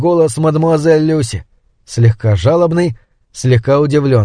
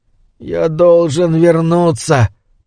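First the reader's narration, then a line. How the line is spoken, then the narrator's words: Moaning. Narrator (Russian): простонал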